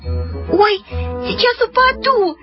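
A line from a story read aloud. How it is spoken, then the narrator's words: Squealing. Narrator (Russian): запищала Люська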